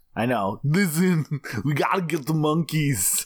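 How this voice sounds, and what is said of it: Gagging put-on Eastern European accent. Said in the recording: “That's actually an accent that you have when the concept of speaking makes you gag and almost throw up ... you go Schwarzenegger so fast”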